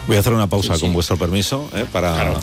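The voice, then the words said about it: Very serious, formal interviewer tone. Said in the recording (Spanish): “estás poniendo voz muy seria todo el rato ... ¿Qué tono es este? ... Es un tono de respeto. ... tono como de, si estuviéramos entrevistando.”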